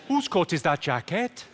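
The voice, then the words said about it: Confused-sounding Welsh accent. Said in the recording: “the secret to the Welsh accent isn't so much a phrase, it's more a state of mind. To do a good Welsh accent, you've just got to sound confused.”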